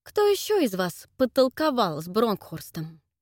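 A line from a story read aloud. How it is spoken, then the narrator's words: Heavy sigh. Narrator (Russian): тяжело вздохнул Эдвард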